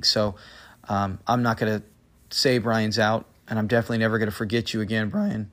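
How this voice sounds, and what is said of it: Scratchy, hoarse voice. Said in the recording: “excuse my voice. It's late and I'm getting real scratchy.”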